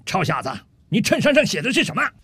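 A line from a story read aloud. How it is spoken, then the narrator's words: Slow, unhurried. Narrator (Chinese): 这陆军大兵慢悠悠地对着吧台里的酒保说道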